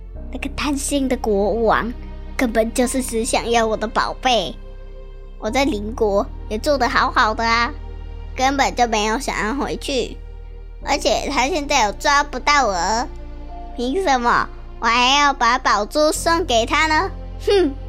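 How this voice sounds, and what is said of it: Quiet muttered grumbling. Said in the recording (Chinese): “他在心里小声的骂着”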